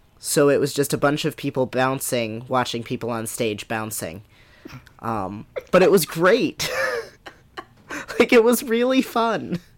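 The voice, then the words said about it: Worn-out, damaged voice. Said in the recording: “that's why my voice sounds like this ... my voice did not survive. It killed my voice.”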